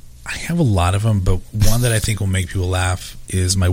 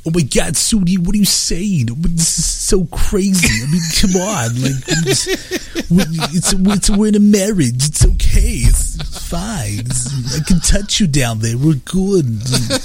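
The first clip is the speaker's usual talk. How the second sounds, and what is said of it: Imitates another person's voice. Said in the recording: “my Woody Allen”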